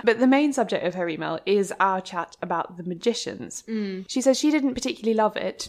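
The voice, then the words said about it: English accent. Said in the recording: “English voices”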